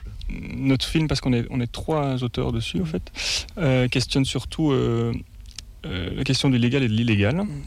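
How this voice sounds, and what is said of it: Belgian French accent. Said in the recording (French): “Vous avez un accent, vous êtes belge ?”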